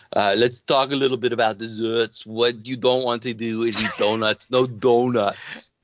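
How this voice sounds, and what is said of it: Imitates another person's accent. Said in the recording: “here's what you would actually say in the accent.”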